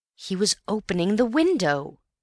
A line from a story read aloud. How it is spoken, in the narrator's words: cried Antony